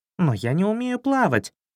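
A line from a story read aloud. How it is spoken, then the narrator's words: Offended snort. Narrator (Russian): обиженно фыркнул Златобров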